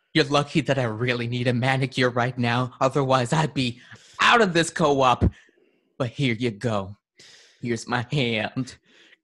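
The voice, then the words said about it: Creepy character voice. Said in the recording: “Creepy voice.”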